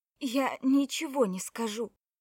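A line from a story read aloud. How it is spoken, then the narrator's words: Forced out reluctantly. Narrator (Russian): выдавила Кора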